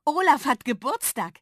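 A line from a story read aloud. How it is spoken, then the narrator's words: Called out. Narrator (German): rief Dolly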